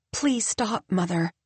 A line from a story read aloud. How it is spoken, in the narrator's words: Tabitha says softly